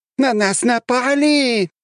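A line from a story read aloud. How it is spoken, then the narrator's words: Shrieking. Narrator (Russian): визжали они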